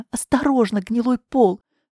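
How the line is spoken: Tearful warning. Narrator (Russian): Сквозь слезы предупредила

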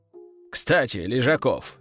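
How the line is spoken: Thoughtful. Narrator (Russian): задумчиво проговорил командующий имперским соединением тяжелой пехоты

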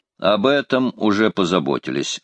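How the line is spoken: Plain. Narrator (Russian): ответил Карл

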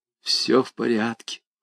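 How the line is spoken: Quiet, distinct, muffled. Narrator (Russian): Она тихо, отчетливо, прикрывая рукой трубку, сказала

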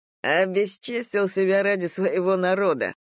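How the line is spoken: Scornful snort. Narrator (Russian): фыркнул Тейк

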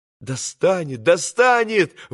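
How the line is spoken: Exclamation. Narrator (Russian): воскликнул Алеша

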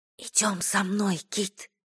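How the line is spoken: Whispered. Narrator (Russian): прошептала она

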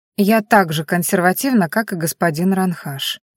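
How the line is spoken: Gloomy reply. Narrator (Russian): мрачно отозвалась девушка

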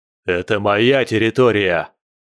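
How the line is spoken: Furious roar. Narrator (Russian): заорал в бешенстве вожак местной стаи

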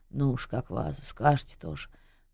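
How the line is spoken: Displeased snort. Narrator (Russian): Таксист недовольно хмыкнул

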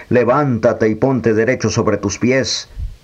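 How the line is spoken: Loud strong voice. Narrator (Spanish): le dijo con voz fuerte

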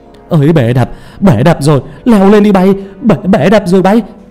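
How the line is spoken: Panicked scream. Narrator (Vietnamese): một người đàn ông hét lên thất thanh

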